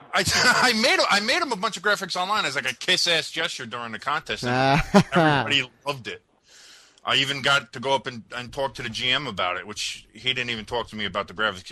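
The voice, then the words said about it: New Jersey accent. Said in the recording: “your voice is great... You have a Jersey accent, but that's okay. We'll work on that.”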